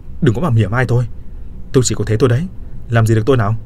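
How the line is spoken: Angry shout. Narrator (Vietnamese): Tôi đỏ mặt tía tai quát

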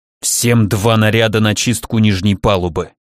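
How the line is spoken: Angry hiss. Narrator (Russian): я злобно прошипел

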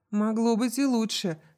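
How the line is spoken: Laughing. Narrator (Russian): рассмеялась Барингтон

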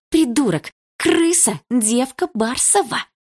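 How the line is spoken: Angry hiss into phone. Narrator (Russian): прошипела Лика в телефон

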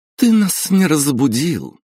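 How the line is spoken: Accusing exclamation. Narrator (Russian): обвинительно воскликнула Кристина

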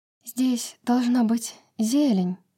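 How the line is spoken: Hoarse whisper. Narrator (Russian): Хрипло прошептала Брась

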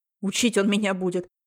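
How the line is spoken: Scornful snort. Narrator (Russian): фыркнул Матвей

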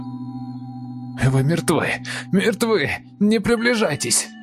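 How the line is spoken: Shrill shriek turning to gurgle. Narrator (Russian): Он сорвался на пронзительный визг, захлебнулся, сменившись булькающим хрипом

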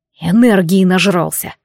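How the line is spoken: Sigh. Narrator (Russian): вздохнул Шон

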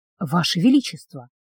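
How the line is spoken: Barely audible rustling whisper. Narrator (Russian): прошелестел едва слышно

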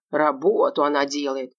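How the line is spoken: Grumbling colonel. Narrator (Russian): проворчал полковник

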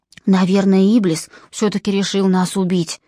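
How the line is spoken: Whisper. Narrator (Russian): шепнул Джон

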